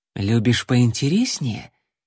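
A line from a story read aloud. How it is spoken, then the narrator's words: Girl purring. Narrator (Russian): промурлыкала девушка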